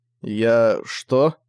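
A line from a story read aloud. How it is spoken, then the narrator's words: Mumbled. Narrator (Russian): промямлил Зориан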